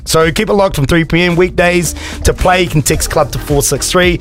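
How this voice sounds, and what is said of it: Australian accent. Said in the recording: “I reckon your Aussie accent kicked in there, eh?”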